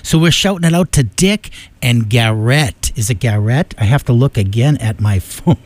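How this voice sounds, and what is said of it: Boston accent. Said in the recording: “I got that Boston accent”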